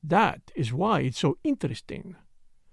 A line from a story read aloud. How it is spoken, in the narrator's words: he added softly